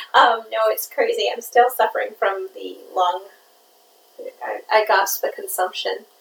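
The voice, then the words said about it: Hoarse, worn-out voice. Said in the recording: “my voice is shot ... I just might be more like a squeaky hinge towards the end of it”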